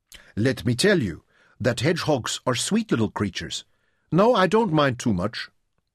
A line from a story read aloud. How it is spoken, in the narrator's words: said, and added softly